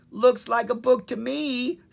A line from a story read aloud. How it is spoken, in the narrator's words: said Sprite with a giggle